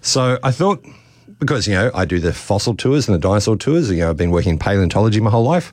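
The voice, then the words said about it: Worn, tired voice. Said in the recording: “It's been a very busy school holidays. ... you can probably hear it in my voice. I've done lots and lots of talks”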